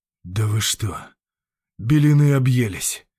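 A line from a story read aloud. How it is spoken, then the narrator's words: Breathless exhale. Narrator (Russian): только и выдохнул он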